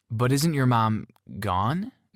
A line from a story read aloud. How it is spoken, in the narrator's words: Barry asked hesitantly